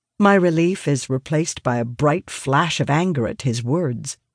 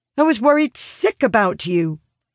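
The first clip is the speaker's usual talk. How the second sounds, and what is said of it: Raised, angry voice. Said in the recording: “inadvertently raising my voice”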